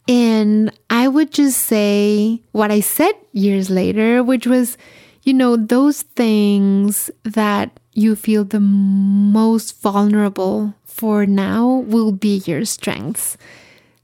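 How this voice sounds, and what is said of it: Speaks with a noticeable accent. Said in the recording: “I was very insecure about my accent ... It was like my accent.”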